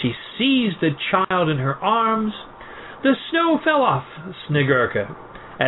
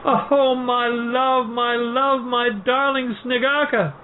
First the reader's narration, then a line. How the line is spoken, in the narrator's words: cried the kind-hearted woman, tenderly